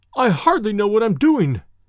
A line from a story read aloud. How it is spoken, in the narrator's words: he cried